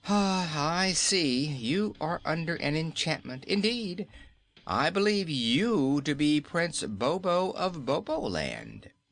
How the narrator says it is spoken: he said with a pitying sigh

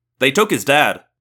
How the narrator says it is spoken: I said

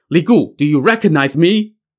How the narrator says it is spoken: a man shouting

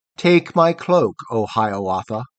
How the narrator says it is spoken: the tree with all its branches rustled in the breeze of morning, saying, with a sigh of patience

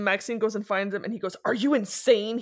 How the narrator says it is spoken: He spat at her

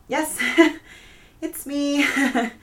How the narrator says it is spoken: laughed

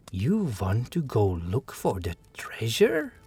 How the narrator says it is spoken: He said in a low voice

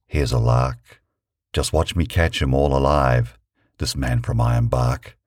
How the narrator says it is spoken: he whispered

